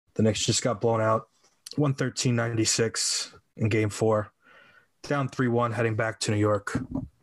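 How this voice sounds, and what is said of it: Dejected, depressed-sounding voice. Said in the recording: “as you can tell by my voice, I'm fucking depressed.”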